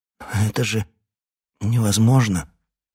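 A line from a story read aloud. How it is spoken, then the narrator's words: Snorting, stammering. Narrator (Russian): Отфыркиваясь и заикаясь, он произнес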